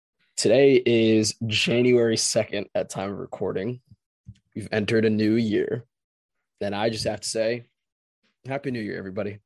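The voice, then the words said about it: Hoarse, strained voice. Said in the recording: “my voice is a little shot ... I apologize if my voice sounds like a dying cat”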